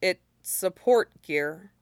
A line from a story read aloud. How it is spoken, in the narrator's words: Shinzo said quietly after a moment